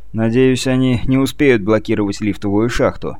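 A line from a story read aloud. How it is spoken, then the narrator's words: Gloomy. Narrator (Russian): мрачно произнес Сагетти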